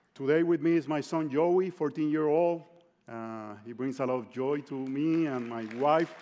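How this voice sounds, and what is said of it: Puerto Rican accent in English. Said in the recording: “that's where I'm originally from ... I still cannot get rid of this accent ... my accent is not a distraction”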